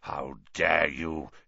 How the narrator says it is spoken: he growled, suddenly sounding like the bear-sized dog he had been

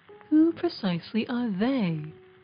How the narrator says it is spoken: asked

